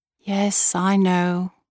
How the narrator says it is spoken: I said wistfully

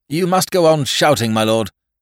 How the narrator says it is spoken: Whimsy shouted

